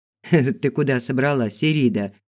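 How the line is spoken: Laughing. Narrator (Russian): засмеялся Фил

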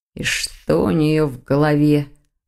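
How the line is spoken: Angry mutter. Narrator (Russian): зло пробормотал Дамиан

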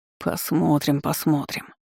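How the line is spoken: Distrustful stubborn grumble. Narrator (Russian): недоверчиво проворчал темный маг, не желая сдаваться

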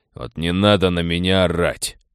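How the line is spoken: Snapping. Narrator (Russian): огрызнулся Гуннер

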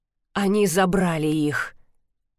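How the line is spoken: Very muffled interjection. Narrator (Russian): совсем глухо вмешался Кит

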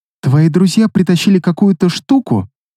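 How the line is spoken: Quiet reply. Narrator (Russian): Тихонько отозвалась Персефона

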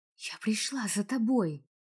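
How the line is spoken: Whisper. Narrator (Russian): прошептала я, хотя смысла в шепоте уже не было

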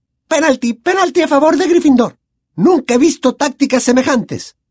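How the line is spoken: Shriek. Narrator (Spanish): chilló la señora Hooch

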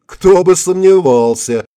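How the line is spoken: Giggling. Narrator (Russian): хихикнул Горобец

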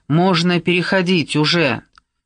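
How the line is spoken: Booming voice. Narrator (Russian): Ваксман прогремел следом

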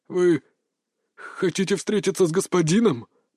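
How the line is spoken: Hoarse rasp. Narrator (Russian): прохрипел он

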